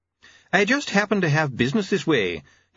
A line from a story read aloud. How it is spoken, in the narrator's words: he began, smiling brightly